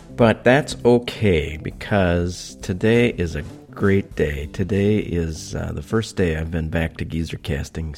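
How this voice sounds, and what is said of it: Low, congested voice from a cold. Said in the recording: “In particularly low tones today because I have a little bit of a cold”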